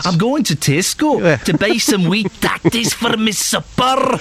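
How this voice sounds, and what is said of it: Put-on Scottish accent. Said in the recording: “the Scottish accent is very hard to do ... Can anybody phone in and do a decent Scottish? It's the hardest accent to do.”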